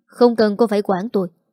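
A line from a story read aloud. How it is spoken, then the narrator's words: Irritable snap. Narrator (Vietnamese): Anh gắt gỏng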